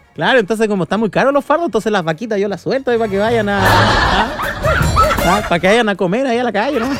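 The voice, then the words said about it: Put-on rural southern Chilean accent. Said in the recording (Spanish): “Se me está pegando hasta el acento, oiga, ahí de... El acento campestre ... ¿Por qué estoy hablando como sureño, oiga?”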